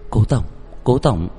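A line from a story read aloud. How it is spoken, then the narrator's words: Soft, dazed. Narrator (Vietnamese): Tần Chỉ Ái ngây ngốc, nhẹ nhàng lên tiếng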